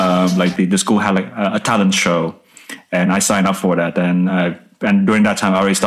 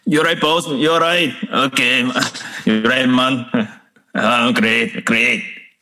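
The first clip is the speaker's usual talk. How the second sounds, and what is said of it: Attempted Scottish accent. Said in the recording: “can you do your Scottish accent for me? ... I can try.”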